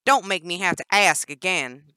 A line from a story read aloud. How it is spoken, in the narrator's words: Danny raised her voice